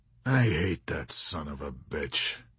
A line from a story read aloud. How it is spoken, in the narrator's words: Yossarian growled